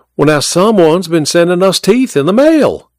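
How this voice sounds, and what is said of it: Thick Georgia accent. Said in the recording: “she spoke in her thick Georgia accent”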